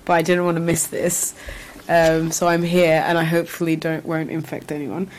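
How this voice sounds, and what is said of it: Congested, sick-sounding voice. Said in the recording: “my voice is going to be really annoying right now because I have a cold”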